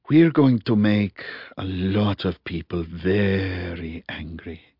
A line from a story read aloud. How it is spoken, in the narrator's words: he said quietly